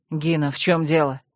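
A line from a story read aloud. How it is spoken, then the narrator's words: Displeased grumble. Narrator (Russian): недовольно буркнул Рент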